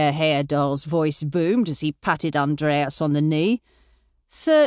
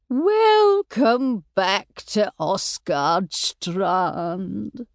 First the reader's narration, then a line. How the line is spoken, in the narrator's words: she said in a sugary voice